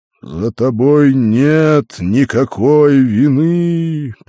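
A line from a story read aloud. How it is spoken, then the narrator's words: Booming voice. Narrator (Russian): прогремел голос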